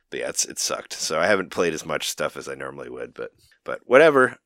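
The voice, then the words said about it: Voice lower than usual, sick. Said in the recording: “My voice sounds a little bit better, but it's still low. Like, it's still lower than it normally is.”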